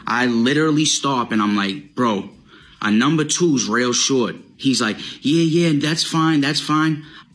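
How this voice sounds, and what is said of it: Strong Boston accent. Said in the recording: “his excessive Boston accent”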